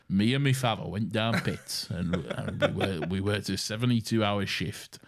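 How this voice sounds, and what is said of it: Broad Northern English accent. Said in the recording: “every Northern accent is the same, and what you do is a very broad ... a very broad sort of, like, Doncaster sort of thing”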